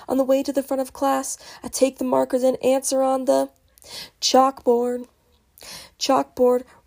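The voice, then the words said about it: Hoarse voice. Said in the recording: “my voice is really hoarse”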